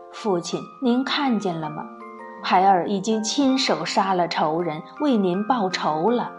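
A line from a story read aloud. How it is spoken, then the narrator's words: Tearful murmur to himself. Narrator (Chinese): 不由得流下了两行热泪，又抬起头望着远方，喃喃自语地说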